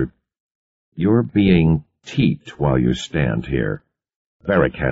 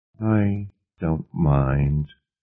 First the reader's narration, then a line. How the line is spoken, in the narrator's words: Laurie said wistfully